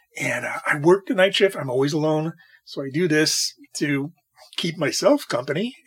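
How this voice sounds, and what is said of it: Slightly raspy late-night voice. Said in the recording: “I think you can hear it in my voice. My voice is a little bit raspy at night when I talk too much.”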